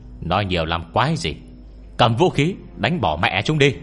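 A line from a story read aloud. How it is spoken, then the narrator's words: Loud shout. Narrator (Vietnamese): một vị trong đó hét lớn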